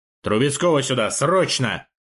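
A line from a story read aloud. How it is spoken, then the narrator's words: Bark. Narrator (Russian): рявкнул он, окончательно приходя в себя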